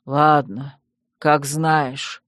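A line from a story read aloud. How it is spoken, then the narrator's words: Weary sigh. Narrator (Russian): устало вздохнул владыка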